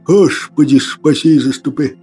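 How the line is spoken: Whispering monk. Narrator (Russian): шептал монах

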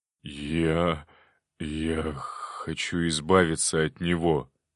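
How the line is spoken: Hoarse wheeze. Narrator (Russian): прохрипел Иван

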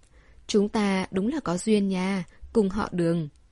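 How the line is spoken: Smiling speech. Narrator (Vietnamese): Đường Đinh Đinh mỉm cười nói

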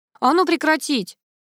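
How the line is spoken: Barked order. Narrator (Russian): гаркнул полковник

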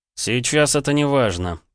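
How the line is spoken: Muttered through clenched teeth. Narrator (Russian): процедил Полозов

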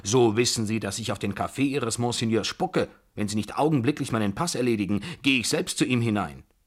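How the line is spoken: Very loud roar. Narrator (German): brüllte ich, aber noch viel lauter

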